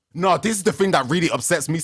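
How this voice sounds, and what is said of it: Shouting, loud agitated voice. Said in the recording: “I'm shouting. Oh my God. I'm shouting.”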